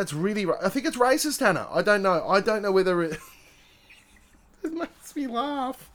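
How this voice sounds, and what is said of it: Usual voice. Nothing is said of it.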